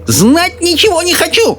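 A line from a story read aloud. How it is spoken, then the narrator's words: Old woman shouting. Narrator (Russian): закричала бабушка Джозефина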